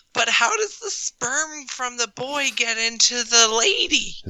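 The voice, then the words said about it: Imitates another person's voice. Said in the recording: “great impression ... Nailed it.”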